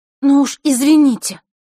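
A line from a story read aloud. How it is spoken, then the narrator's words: Snapping back. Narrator (Russian): огрызнулась Василиса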